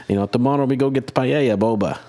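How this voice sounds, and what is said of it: Mock Spanish accent, sounding Italian-American. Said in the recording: “I like our Spanish accents... That was more of a Chef Boyardee accent.”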